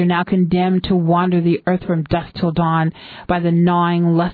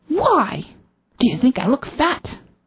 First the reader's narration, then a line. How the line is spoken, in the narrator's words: He hisses at the clerk